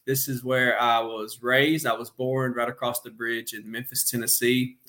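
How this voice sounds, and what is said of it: Arkansas accent. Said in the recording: “you may tell from the accent, I am in Little Rock, Arkansas”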